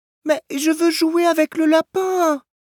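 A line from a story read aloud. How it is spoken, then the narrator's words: Child whining. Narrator (French): gémit l'enfant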